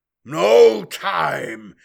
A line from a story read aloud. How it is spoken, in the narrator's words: bellowed Moreau in fury